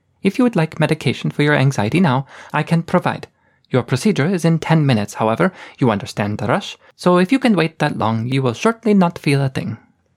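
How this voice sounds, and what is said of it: Clipped, stilted foreign-accented English. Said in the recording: “Her English had the same clipped, stilted accent ... some SR block accent”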